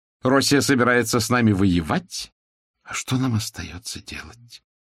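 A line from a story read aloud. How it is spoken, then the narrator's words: Sorrowful sigh, woman. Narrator (Russian): Сокрушенно вздохнула княгиня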